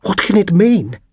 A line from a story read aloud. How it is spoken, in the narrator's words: gasped